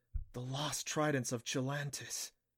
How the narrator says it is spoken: breathed

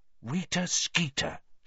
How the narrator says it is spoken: she muttered finally

